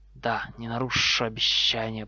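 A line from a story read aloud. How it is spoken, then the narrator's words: Hiss. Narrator (Russian): прошипел Гарри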